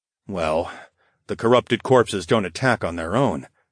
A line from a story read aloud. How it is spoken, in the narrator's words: I murmured